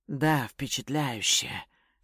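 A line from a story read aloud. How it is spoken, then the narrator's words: Whispered into ear. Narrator (Russian): шепнул жене на ухо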